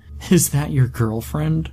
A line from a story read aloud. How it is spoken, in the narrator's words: laughed